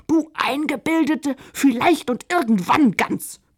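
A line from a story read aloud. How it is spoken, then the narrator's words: Bellowed. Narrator (German): brüllte gerade Josephina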